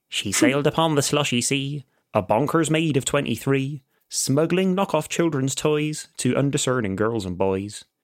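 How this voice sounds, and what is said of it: Put-on Devon accent. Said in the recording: “you read it in a Devon accent”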